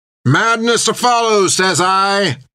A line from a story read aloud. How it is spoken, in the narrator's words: yelled Creech as he grinned into the storm